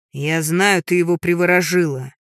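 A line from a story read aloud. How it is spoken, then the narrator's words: Loud yelling. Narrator (Russian): Громко орет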